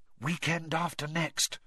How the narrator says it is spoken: whispered Hermione

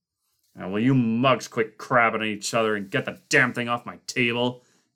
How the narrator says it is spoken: Kinner growled

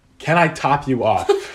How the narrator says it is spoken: giggled a little bit

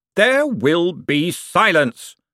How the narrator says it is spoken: shouted Veterinari

